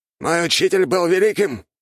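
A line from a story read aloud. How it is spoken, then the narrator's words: Shouting out. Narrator (Russian): выкрикнул Артега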